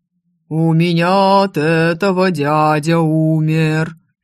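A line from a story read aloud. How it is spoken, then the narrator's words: Sung in deep bass. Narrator (Russian): не кстати пропел Оливер Виклунд густым басом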